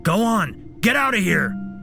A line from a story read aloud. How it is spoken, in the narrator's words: shouted